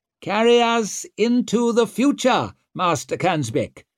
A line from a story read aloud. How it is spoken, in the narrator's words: bellowed His Majesty